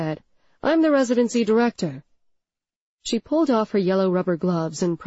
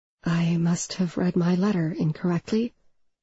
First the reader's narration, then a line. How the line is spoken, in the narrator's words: I whispered